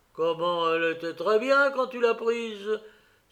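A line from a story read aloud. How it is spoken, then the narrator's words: Worried exclamation. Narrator (French): s'écrie-t-il inquiet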